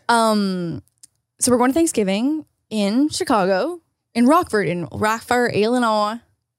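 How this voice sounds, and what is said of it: Failed Northern Illinois accent attempt. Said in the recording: “That's not really how a Northern accent works. ... I don't know what accent that was, but it's certainly not Illinois and certainly not Northern Illinois.”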